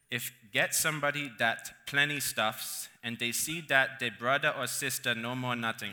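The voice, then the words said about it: Hawaiian Pidgin accent reading. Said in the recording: “I love this accent,”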